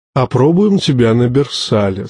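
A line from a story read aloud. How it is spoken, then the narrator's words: Plain. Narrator (Russian): сказал маэстро Карл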